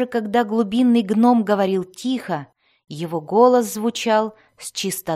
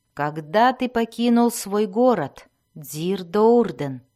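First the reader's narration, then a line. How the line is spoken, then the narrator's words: Soft question. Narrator (Russian): мягко спросил Белвар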